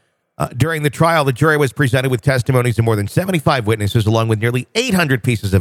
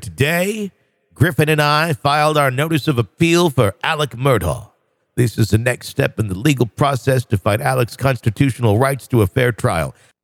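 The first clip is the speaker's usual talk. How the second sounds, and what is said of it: Weak impression of Dick Harpudelin. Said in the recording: “I can't do a very good Dick Harpudelin impersonation.”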